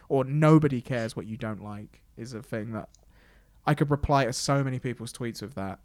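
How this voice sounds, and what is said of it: British accent. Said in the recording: “I've got a British accent ... British people can't get mad without it being funny ... it's the accent”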